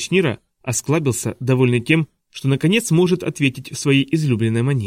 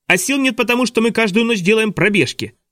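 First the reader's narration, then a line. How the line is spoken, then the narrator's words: Shouting. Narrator (Russian): закричал Клаус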